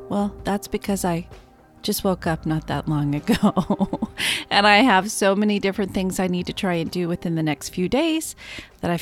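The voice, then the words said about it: Tired, just-woken-up voice. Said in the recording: “as you can tell, my voice sounds tired ... bear with me as my voice wakes up”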